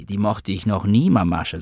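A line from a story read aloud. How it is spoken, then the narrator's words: Plain. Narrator (German): sagte ich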